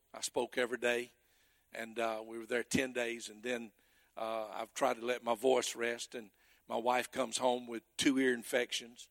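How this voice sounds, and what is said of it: Hoarse voice. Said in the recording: “I'm hoarse.”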